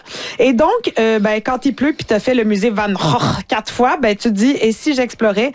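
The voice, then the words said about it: Dutch accent on a word. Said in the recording (French): “Avec l'accent néerlandais.”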